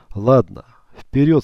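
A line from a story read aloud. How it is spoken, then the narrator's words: After laughing. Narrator (Russian): сказал Калина, отсмеявшись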